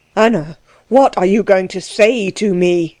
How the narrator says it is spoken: he cried, beside himself with love of her

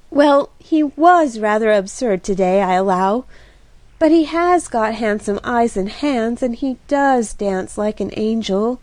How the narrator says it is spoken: sighed Kitty

